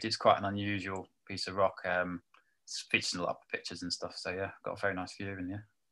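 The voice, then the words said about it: British accent. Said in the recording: “you've obviously got a British accent”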